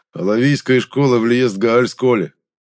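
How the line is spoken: Chuckling. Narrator (Russian): хохотнул

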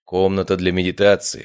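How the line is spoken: Amused snort. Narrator (Russian): хмыкнул я

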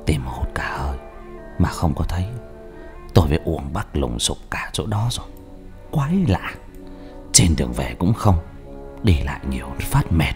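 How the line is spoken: Soft quiet voice. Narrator (Vietnamese): Thầy Nê khe khẽ nói

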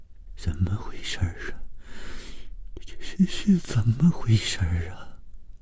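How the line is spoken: Trembling voice. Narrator (Chinese): 谭小颖紧拉住了高伟的手，声音颤抖地说

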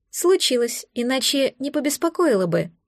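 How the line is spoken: Plain android voice. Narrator (Russian): ответила андроид

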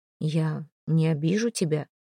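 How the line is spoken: Gentle reassurance. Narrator (Russian): мягко заверил

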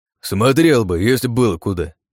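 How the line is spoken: Grumbling. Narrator (Russian): проворчал тот

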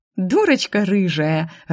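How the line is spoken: Laughing. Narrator (Russian): рассмеялась она

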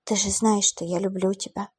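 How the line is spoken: Whisper. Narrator (Russian): прошептала она

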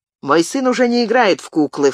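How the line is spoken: Scoffing snort. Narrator (Russian): фыркнул коннетабль

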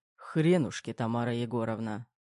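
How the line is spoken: Muttering. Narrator (Russian): Пробормотал Терех

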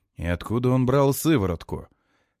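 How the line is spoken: Sad snort. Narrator (Russian): Листер печально фыркает

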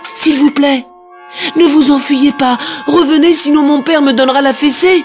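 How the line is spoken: Young boy shouting. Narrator (French): cria le petit prince

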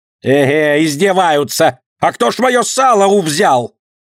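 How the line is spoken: Loud booming shout. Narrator (Russian): зычно кричала торговка

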